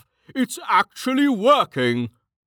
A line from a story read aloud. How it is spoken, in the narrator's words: Jemos exclaimed